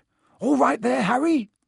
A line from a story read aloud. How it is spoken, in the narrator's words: he had time to yell